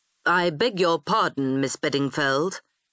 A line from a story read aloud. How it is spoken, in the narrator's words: he said stiffly